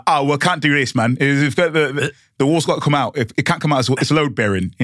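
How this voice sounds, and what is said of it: Poor put-on Cockney accent. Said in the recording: “who is this Cockney guy? Not a great accent”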